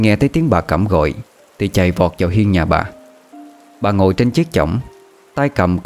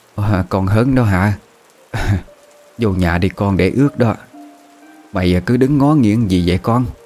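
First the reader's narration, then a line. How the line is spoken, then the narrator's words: Hoarse old woman's voice. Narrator (Vietnamese): bà Cẩm cất cái giọng khàn khàn bảo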